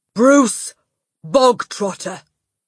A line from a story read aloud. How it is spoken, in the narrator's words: the Trunchbull barked suddenly